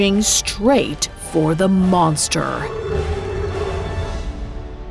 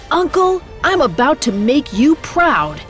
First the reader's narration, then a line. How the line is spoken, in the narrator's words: He yelled